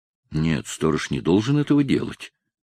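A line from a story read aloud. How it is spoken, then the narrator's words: Pitying mutter. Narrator (Russian): пробормотал он в порыве жалости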